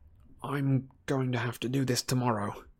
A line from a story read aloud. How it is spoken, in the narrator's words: he muttered